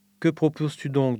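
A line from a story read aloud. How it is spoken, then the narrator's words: Plain. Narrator (French): demanda-t-il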